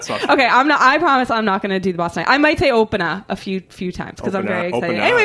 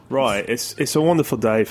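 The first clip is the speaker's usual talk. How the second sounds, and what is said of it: Put-on British accent. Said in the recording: “And I'll do a British accent. ... That's terrible. Don't do that. ... It's spot on.”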